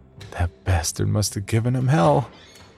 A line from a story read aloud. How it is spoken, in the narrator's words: he silently chuckled to himself